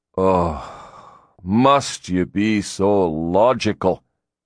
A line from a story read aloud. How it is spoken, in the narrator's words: he said with a sigh